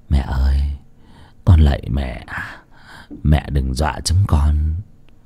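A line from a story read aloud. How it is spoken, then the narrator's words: Trembling mutter. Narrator (Vietnamese): run run rẩy rẩy, lẩm bẩm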